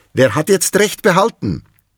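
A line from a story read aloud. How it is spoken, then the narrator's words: Called from above. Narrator (German): rief die Rinde von oben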